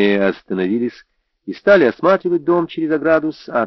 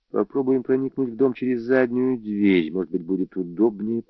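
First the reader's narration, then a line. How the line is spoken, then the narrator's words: Whispered. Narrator (Russian): прошептал я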